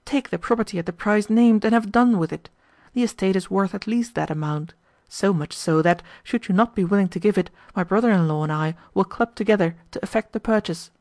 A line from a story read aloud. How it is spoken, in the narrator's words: he exclaimed